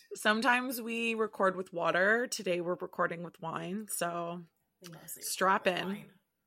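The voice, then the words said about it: Raspy voice. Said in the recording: “the person whose voice is always raspy”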